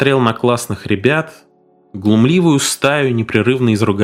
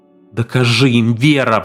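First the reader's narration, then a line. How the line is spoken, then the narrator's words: Pleading. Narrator (Russian): взмолился он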